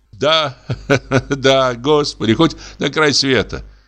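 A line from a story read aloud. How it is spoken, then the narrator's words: Laughing. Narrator (Russian): засмеялся дьякон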